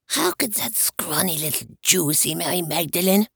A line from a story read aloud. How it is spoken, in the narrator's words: he spat out in a whisper